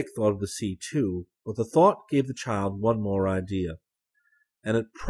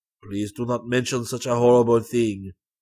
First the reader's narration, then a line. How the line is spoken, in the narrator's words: exclaimed John with a shiver